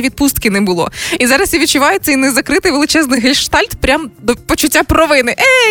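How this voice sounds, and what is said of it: Usual voice. Nothing is said of it.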